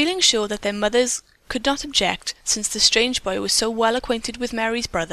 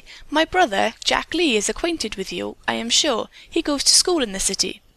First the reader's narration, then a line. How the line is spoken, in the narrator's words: Mary exclaimed brightly